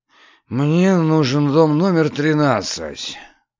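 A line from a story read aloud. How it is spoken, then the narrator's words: Sighing. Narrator (Russian): вздохнул тот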